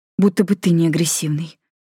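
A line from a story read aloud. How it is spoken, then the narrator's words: Muttered. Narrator (Russian): буркнула Майми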